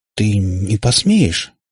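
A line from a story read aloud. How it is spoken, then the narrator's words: Hesitant. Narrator (Russian): неуверенно начал он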